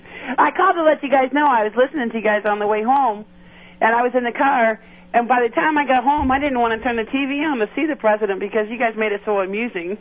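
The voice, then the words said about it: Slight northern US Michigan-like accent. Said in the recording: “I heard some of a bit of a northern, northern accent or something ... There's a little bit of that Michigan twang ... upstate New York is the same thing as Michigan accent”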